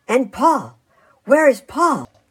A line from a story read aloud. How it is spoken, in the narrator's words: cried